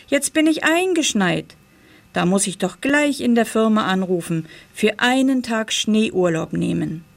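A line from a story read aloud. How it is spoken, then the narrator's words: Cheerful call. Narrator (German): rief er fröhlich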